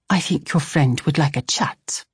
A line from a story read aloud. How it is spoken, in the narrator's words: Mama murmured